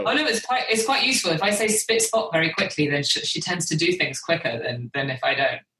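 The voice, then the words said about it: British accent. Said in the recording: “I'm the one with the British accent.”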